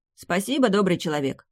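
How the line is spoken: Smirking. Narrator (Russian): хмыкнул Мик

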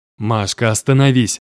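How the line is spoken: Father snorting. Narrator (Russian): фыркнул на нее отец

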